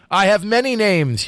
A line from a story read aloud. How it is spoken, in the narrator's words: cried